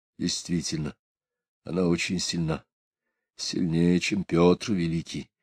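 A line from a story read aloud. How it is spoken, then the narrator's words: Quiet whisper. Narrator (Russian): тихо прошептал Алексей Григорьевич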